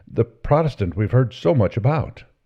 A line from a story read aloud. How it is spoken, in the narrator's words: exclaimed the young man